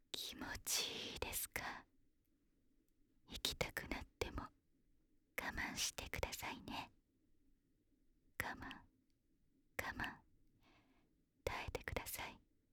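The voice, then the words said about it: Whispering close to the ear. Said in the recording (Japanese): “耳元でささやかれながら”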